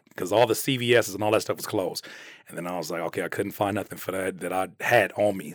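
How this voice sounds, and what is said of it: Hoarse, sore-throated voice. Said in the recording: “I had a sore throat ... My throat is trash ... as you can see, my voice is still not 100%”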